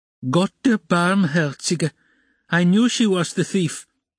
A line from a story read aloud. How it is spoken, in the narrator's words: cried Amalia Ivanovna